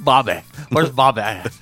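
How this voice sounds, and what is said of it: Put-on Dallas Texan accent. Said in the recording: “Is that an accent that you're working on over there? ... That's Dallas. ... that's how folks in Dallas talk? ... I don't even know what that accent is exactly. ... they all sound the same.”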